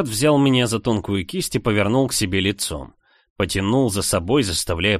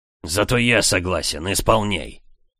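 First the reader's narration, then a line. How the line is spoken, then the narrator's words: Growled. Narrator (Russian): рыкнул мужчина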